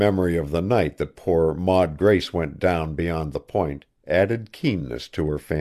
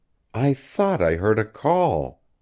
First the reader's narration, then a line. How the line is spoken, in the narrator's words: she moaned